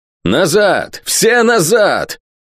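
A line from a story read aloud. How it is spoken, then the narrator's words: Yelling. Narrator (Russian): орал тем временем Кавендиш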